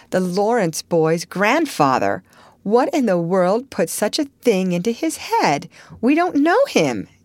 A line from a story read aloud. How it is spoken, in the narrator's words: exclaimed Meg